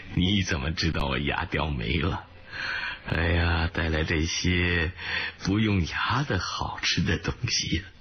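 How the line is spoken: Laughing. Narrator (Chinese): 他笑道

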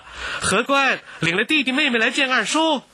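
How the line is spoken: Calling out loudly. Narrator (Chinese): 瑞云这样答着，接着向里面喊道

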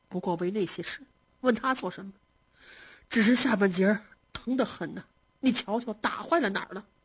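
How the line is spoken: Sighing, pained. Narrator (Chinese): 宝玉叹了一口气

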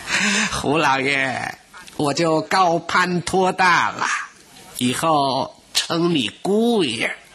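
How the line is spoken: Beaming happily. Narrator (Chinese): 三婆婆眼睛笑得都眯成一条缝了

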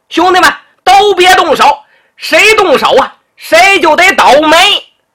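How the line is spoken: Shouting. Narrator (Chinese): 为首的这男的 喊了

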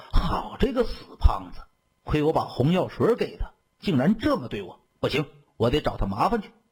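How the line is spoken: Through gritted teeth. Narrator (Chinese): 王娇也咬牙切齿地说

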